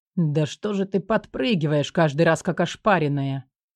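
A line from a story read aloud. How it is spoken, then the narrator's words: Grumbled. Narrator (Russian): над моим ухом проворчал, сука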